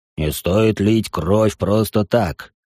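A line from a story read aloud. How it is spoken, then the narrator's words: Unnaturally deep bass voice. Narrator (Russian): произносит неестественно густым басом незваный гость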